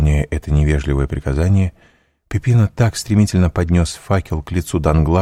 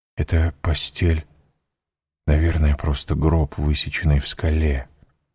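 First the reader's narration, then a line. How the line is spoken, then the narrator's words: Whisper. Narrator (Russian): прошептал Данглар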